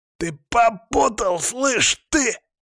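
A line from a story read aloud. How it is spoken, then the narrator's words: Hoarse wheezing. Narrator (Russian): хрипел он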